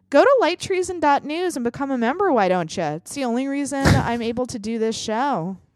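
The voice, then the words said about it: Midwestern accent. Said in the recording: “You sounded so Midwestern there... It's a Fargo accent.”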